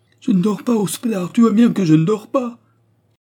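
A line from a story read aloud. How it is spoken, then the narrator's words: Wild cry ending in sob. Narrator (French): Ce cri sauvage finit dans un sanglot, puis avec un long soupir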